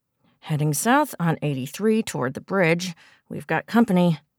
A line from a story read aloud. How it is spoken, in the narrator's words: she said through gritted teeth